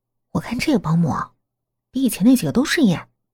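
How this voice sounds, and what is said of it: Quiet, hushed voice. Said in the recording (Chinese): “小声”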